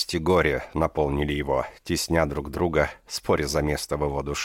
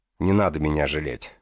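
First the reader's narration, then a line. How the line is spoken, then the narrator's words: Stern. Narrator (Russian): строго сказала госпожа Раша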